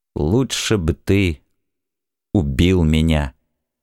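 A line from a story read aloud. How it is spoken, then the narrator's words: Two quiet voices together. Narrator (Russian): тихо сказали человек Асахиру Ли и блистающий Нодачи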